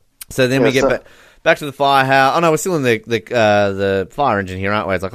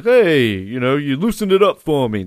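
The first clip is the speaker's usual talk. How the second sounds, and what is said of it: Put-on New York accent. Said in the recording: “That's my sort of New York accent.”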